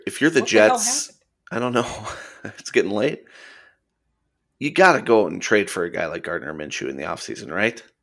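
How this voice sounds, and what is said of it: Strained, fading hoarse voice. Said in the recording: “losing my voice”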